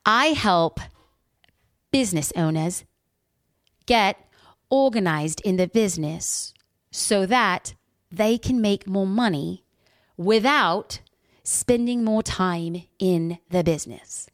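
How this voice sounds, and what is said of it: Put-on accent, admittedly poor. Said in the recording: “I'm going to fill in the blanks with an accent ... I have terrible accents”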